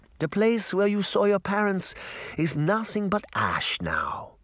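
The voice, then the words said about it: Light German accent. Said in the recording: “Granny Relda said in her light German accent.”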